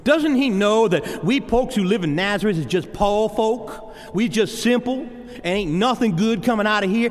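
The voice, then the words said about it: Put-on hick accent. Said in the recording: “In their hick accent.”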